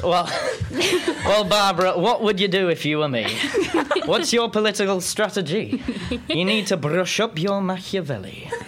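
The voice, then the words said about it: Put-on Yorkshire accent. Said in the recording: “a Yorkshire accent. Huddersfield? Is it Huddersfield?”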